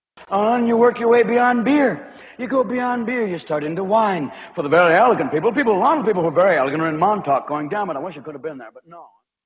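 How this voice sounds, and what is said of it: Slight accent, stand-up delivery. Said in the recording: “Doing a slight accent there”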